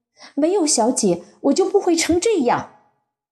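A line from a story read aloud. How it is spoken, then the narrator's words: Sudden anger. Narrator (Chinese): 我突然大怒说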